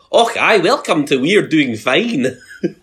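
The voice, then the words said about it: Imitation of a clumsy Scottish accent. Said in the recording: “That was Lisa attempting a Scottish accent ... He's so good at impersonating me.”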